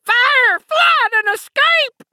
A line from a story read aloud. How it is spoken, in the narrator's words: the other screamed